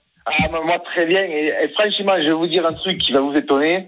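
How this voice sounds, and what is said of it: Slight regional accent. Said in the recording (French): “Petit accent.”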